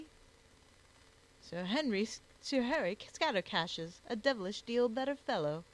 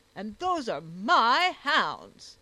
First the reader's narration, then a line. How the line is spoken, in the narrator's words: roared he